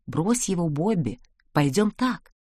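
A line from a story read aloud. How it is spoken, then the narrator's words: Whisper. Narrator (Russian): Беатрис шепнула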